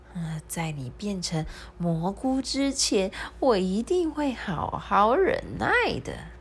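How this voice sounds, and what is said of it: Quiet, hushed old woman's voice. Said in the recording (Chinese): “小声”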